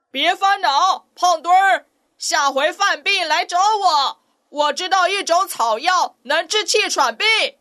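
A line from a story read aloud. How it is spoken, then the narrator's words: Shouting from afar. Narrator (Chinese): 鹈鹕远远地在他身后喊着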